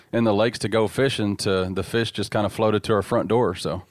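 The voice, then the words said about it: Southern US accent. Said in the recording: “It's good to hear your accent there ... You obviously grew up in the South somewhere.”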